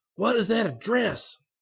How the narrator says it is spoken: he shouted

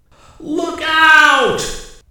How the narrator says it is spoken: shouted

